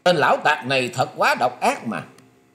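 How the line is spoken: Terrified loud shout. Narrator (Vietnamese): Tần Quyển Linh hết sức kinh hoàng, nạt to lên rằng

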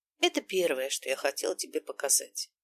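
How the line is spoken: Quiet explanation. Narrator (Russian): объяснил я негромко

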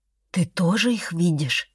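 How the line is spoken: Near whisper. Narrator (Russian): спросила почти шепотом

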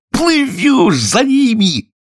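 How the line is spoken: Joyful yell. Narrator (Russian): радостно завопил Грифон

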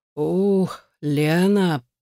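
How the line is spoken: Moaning. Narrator (Russian): простонал он

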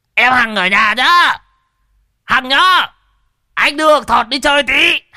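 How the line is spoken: Choked, loud yell. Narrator (Vietnamese): nhị già tự nhiên nghẹn cổ mà gào to lên với vợ lão

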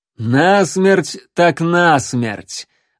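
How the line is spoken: Sudden triumphant laugh. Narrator (Russian): Вдруг рассмеялся капитан, с победоносным видом

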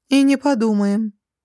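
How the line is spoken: Calm female reply. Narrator (Russian): спокойно откликнулась Дилара

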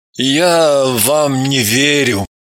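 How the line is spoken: Mumble. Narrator (Russian): промямлил

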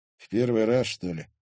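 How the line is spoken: Weary sigh. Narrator (Russian): устало вздохнул Стас

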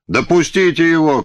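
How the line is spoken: Annoyed nobleman's shout. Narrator (Russian): крикнул с коня какой-то боярин, очень раздосадованный неудачей с орлом

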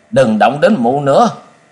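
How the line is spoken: Sudden strained cry. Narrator (Vietnamese): Đột nhiên Cung Cừu gắng gượng la lên

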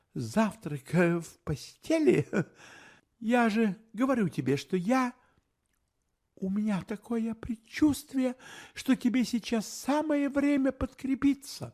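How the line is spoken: Said sadly. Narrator (Russian): грустно сказала она

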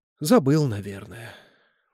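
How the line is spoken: Sighing. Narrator (Russian): вздохнула она

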